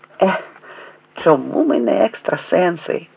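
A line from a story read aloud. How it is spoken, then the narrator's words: Sighing. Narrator (Ukrainian): зітхнув Женя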